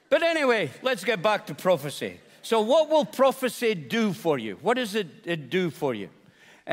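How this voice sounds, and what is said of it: Speaker's own noticeable accent. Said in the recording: “Maybe it's my accent. ... you just keep talking because I love your accent.”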